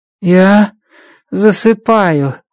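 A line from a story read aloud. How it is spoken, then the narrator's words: Sleepy mumble. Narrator (Russian): сонно бормочет иридианец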